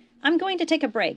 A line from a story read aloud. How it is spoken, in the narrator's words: he called out to Nog